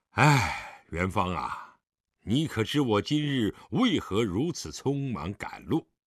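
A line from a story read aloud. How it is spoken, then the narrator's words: Long sigh. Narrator (Chinese): 狄仁杰长叹一声道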